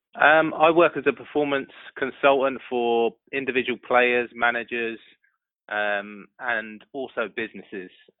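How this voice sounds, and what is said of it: Distinct accent. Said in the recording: “I love the accent.”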